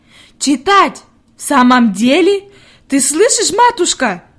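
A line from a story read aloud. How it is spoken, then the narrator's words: Shouted. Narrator (Russian): крикнула она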